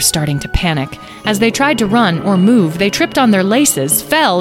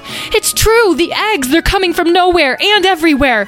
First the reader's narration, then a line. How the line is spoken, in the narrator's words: One of the others yelled out